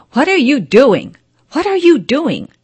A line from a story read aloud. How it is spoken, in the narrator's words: shouted the master